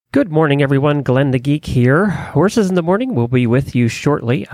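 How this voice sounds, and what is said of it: Hoarse, strained voice. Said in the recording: “I'm kind of losing my voice ... I have to save my voice for”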